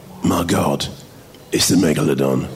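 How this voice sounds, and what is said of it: Jason Statham impression. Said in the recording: “my Statham impression because it's really uncanny ... It's like he's in the room.”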